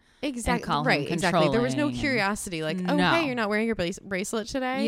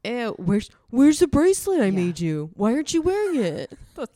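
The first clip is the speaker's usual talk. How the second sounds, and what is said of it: Imitates another person's voice. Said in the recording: “Excellent. Ew, impersonation. That's excellent.”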